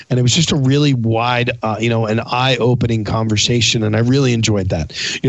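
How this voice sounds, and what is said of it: Worn-out, rough-sounding voice. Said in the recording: “this conversation went on until about three o'clock in the morning. Um, so that's another reason why my voice is as bad as it is”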